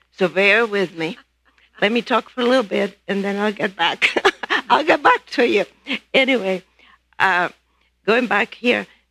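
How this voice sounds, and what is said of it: Spanish accent speaking English. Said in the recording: “I know I still have an accent ... Whenever my accent is stronger, it's because I've talked with my family in Spain.”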